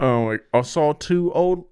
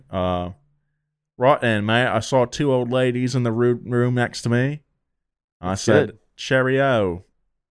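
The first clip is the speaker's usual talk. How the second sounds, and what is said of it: Attempted British accent. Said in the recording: “I can't do a British accent.”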